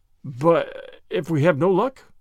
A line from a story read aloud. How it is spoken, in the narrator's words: faltered McAvoy